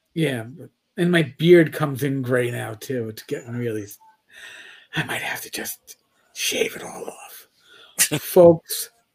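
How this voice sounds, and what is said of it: Hoarse, strained voice. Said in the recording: “As I'm losing my voice.”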